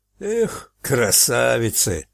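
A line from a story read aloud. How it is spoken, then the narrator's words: Sigh. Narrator (Russian): вздохнул Фарк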